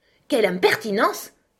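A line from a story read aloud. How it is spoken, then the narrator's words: Pudding exclaiming. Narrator (French): s'exclama le pudding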